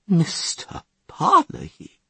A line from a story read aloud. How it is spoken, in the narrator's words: Van Vliet stammered out